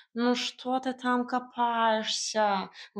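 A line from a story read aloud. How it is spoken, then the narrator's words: Indignant hiss. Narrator (Russian): возмущенно шипел Варфоломей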